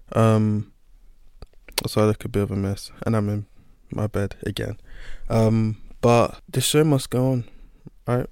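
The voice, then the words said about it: Sick, strained-sounding voice. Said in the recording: “excuse my voice, I'm a bit sick at the moment”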